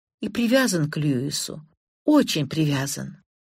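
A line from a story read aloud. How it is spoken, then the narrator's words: Quiet. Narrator (Russian): негромко произнесла она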